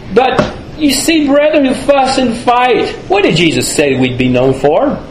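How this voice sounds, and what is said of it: Southern American accent. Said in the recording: “down south, and you can tell from my accent that that's where I'm from”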